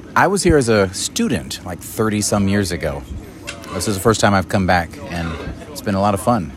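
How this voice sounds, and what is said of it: Smooth radio voice. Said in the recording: “radio voice”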